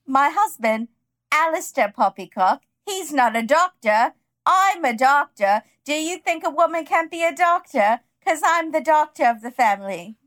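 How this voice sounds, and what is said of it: Thick, exaggerated British accent. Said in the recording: “thickest, worst British accent.”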